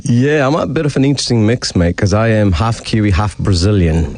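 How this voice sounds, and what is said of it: Non-local foreign accent. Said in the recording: “As you can hear from ... accent, he's not from these parts.”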